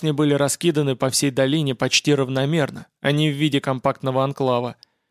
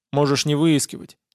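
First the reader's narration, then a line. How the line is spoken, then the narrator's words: Gloomy advice. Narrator (Russian): мрачно посоветовал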